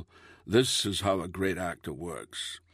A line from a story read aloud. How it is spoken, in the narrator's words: purred serenely